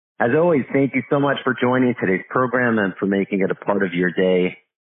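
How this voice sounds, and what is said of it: Deeper voice with a cold. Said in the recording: “Sounding a little deeper today, a little bit of a cold ... my voice might sound a little bit different”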